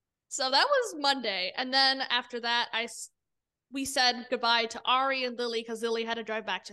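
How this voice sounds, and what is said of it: Usual voice. Nothing is said of it.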